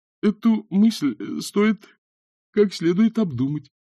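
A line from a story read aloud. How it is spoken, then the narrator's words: Uncertain. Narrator (Russian): неуверенно сказал он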